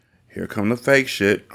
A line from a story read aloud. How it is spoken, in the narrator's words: Harmony said under her breath